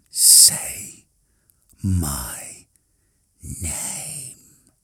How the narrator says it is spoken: hissed again

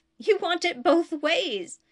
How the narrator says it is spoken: she exclaimed

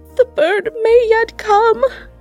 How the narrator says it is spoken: said Rosabella amid her sobs

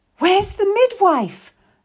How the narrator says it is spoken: cried out

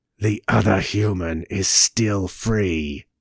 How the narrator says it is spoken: hissed Sla

